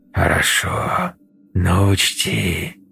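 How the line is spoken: Hissed. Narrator (Russian): прошипела кукла

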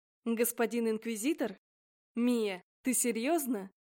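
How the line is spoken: Man snorting. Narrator (Russian): Мужчина хмыкнул

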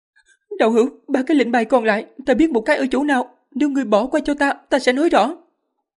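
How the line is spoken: Frightened, fast speech. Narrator (Vietnamese): nữ đệ tử sợ hãi, nói nhanh

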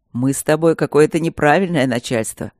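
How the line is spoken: Grumbling. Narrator (Russian): проворчал он

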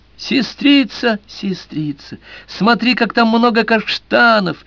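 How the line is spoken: Brother exclaiming joyfully. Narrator (Russian): радостно восклицал брат

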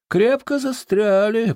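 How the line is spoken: Grumbling. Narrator (Russian): проворчал

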